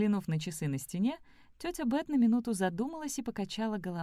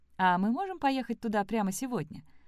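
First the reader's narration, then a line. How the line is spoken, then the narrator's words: Plain. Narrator (Russian): спросила Элли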